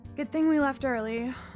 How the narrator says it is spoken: I sighed

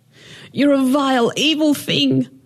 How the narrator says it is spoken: the woman yelled

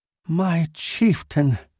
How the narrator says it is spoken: breathed

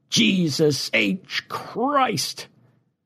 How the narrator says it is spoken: a voice as loud as God's exclaimed

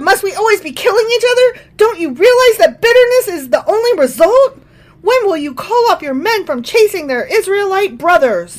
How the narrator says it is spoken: Abner shouted down to Joab

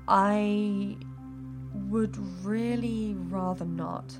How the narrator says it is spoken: Kaelin replied slowly

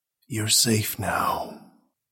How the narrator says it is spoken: he whispered

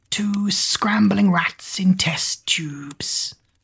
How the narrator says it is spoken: Googe hissed a half laugh

